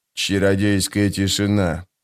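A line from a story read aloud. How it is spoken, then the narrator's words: Grumbled under his breath. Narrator (Russian): проворчал он себе под нос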